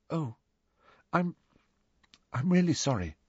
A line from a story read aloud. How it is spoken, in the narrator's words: said Hermione in a very small voice